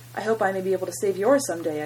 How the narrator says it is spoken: I quickly replied

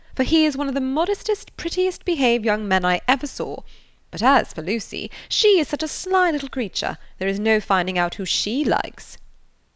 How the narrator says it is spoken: Jennings, laughing heartily

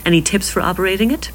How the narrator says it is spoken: He laughed

